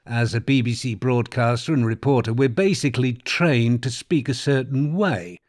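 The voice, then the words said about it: British received pronunciation accent. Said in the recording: “The English term received pronunciation is probably what my accent sounds a little bit like.”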